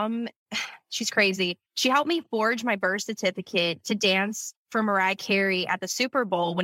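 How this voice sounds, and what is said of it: Usual voice. Nothing is said of it.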